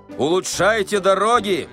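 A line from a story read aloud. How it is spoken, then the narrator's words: Farewell shout. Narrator (Russian): закричал он на прощание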